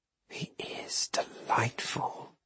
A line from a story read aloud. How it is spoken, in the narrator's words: she murmured to Magnus